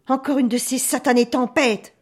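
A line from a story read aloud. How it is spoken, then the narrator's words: Grumbling. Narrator (French): bougonne Jean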